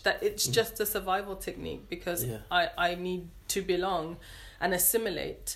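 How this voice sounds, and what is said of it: British English accent. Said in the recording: “I sound very English ... here I sound more British”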